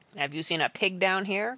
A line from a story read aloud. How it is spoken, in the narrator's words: growled the cook